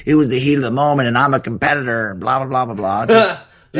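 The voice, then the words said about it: Imitates another person's voice. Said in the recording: “That was a good impression”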